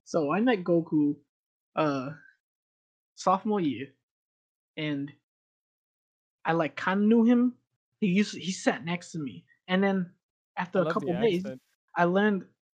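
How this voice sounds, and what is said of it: Put-on accent. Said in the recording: “I'm still doing the accent. I didn't even notice. ... It fits. ... So, you're doing an accent.”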